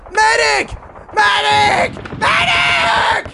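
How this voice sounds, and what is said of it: Shouting. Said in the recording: “Stop shouting.”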